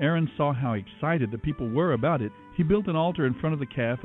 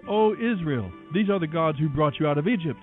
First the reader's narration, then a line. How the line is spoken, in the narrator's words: The people exclaimed